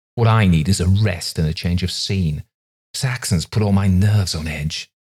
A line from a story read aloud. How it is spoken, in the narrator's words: he snapped, and then added self-pityingly